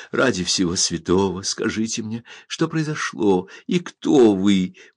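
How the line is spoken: Tearful, sobbing. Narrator (Russian): Утирая слезы и всхлипывая, проговорила

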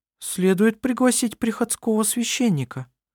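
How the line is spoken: Uncertain suggestion, woman. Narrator (Russian): неуверенно предложила жена Густава

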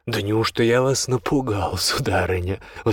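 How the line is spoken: Breathless exclamation after laughing. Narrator (Russian): воскликнул лорд Элрингтон, отсмеявшись и переведя дух

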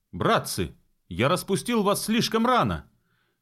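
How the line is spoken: Sudden shout. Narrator (Russian): закричал он внезапно

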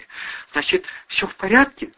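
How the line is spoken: Tearful question. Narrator (Russian): спросила сквозь слезы Кристина

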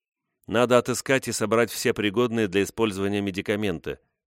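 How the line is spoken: Plain. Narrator (Russian): сказала Рэйчел

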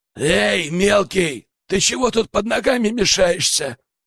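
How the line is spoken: Nasty hoarse voice. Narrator (Russian): раздался противный хрипловатый голос

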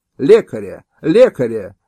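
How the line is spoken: Hetman shouting. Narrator (Russian): закричал гетман

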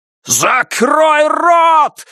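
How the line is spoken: Yelling. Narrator (Russian): заорал Егор

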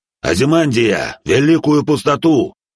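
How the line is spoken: Uneasy shout. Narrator (Russian): крикнул, всей своей кожей чувствуя недоброе

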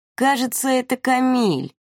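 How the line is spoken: Drawl. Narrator (Russian): протянул Вова

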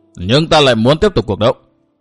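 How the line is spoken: Raised voice. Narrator (Vietnamese): Yến Nam Thiên cao giọng

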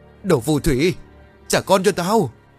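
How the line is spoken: Repeated loud screaming. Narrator (Vietnamese): Vân vẫn chưa buông tha, cô liên tục gào lớn

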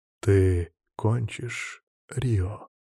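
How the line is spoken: Insinuating, silky. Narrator (Russian): Вкрадчиво обещаю я

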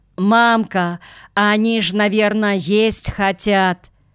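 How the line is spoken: Loud young girl. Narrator (Russian): какая-то девчонка громко сказала

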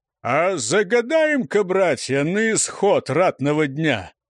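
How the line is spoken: Booming, mocking low voice. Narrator (Russian): Как из бочки насмешливо прогудел низкий голос знакомый по торожихе

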